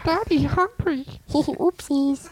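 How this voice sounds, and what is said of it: Playful baby voice. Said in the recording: “does that voice ... that's a fun baby voice I like to do”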